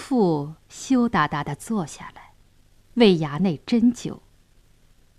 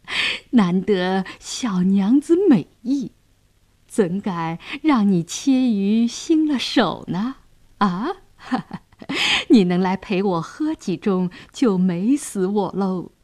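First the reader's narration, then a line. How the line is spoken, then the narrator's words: Leering laugh. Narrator (Chinese): 杨衙内色眯眯地笑道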